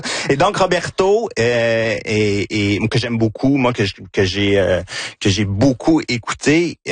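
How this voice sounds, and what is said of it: Victoriaville Quebec French accent. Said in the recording (French): “Gina sourit à cause de mon accent ... C'est mon accent de Victoriaville”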